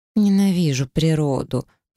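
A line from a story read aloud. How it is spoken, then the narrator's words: Annoyed groan. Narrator (Russian): простонала блондинка с досадой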